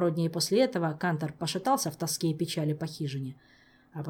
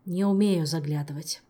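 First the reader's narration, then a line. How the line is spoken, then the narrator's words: Weary sigh. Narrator (Russian): устало вздохнул Амарго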